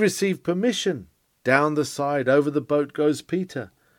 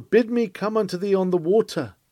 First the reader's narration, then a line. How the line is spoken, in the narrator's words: He cried to his Lord